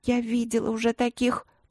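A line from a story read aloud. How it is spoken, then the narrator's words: Quiet mumble, girl. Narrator (Russian): пробормотала тихо девчонка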